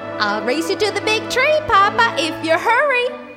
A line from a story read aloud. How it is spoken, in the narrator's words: squealed Baby Bear